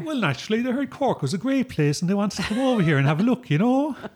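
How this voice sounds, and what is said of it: Cork Irish accent. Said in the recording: “that's a wonderful Cork accent”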